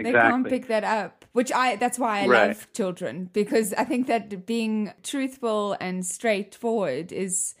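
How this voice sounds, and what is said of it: South African accent. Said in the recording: “I come from, obviously, South Africa, as you can hear with my weird accent.”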